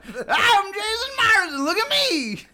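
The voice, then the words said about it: Imitates another person's voice. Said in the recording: “Can you do your impression of me again?”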